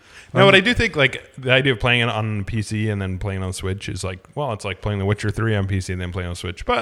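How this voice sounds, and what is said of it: Usual voice. Nothing is said of it.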